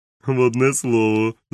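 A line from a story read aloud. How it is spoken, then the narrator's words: Laughing. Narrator (Ukrainian): засміявся доктор Лівсі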